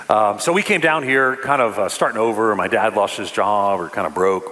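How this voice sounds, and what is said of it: New York accent. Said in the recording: “I'm from New York City... I don't know if you could tell from the accent.”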